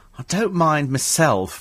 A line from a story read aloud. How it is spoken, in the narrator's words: he said